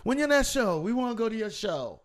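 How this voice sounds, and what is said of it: Imitating someone's accent. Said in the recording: “Said it just like that. You heard the accent.”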